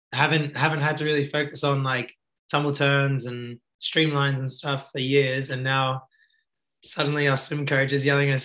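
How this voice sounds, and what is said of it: Hoarse, partly lost voice. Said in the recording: “excuse my voice. ... it's a bit gone today”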